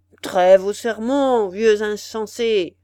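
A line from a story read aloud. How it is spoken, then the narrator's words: Thundering, almost irritated shout. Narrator (French): cria l'hôte d'une voix tonnante et presque irritée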